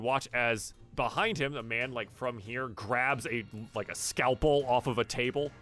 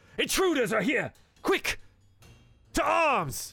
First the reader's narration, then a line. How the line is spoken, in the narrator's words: he shouts